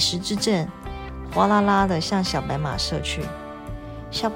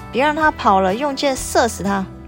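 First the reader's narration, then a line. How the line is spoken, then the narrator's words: Shouting. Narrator (Chinese): 王爷接着喊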